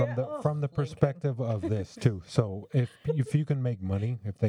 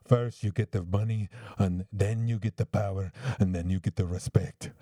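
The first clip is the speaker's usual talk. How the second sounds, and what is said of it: Poor imitation of Scarface's accent. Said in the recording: “that was a shitty accent”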